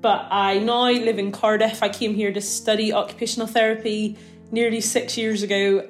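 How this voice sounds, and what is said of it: Northern Irish accent. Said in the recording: “originally from a little village in Northern Ireland called Annalong, hence my funny accent”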